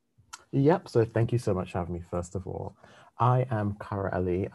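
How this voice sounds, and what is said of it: English accent. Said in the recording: “I'm sure you heard the accent. You're coming all the way from England”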